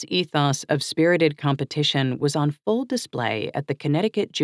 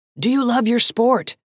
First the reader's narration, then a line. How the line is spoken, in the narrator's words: yelled